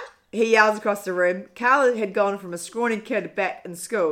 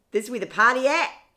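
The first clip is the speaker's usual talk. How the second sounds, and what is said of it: Put-on Australian accent. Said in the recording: “What's my Australian accent? ... Oh, that's quite good.”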